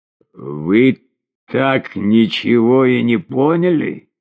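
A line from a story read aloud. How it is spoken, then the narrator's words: Through clenched teeth. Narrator (Russian): Процедил он сквозь сжатые зубы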